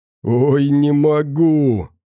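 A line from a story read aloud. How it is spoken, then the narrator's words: Groaning. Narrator (Russian): простонал Силок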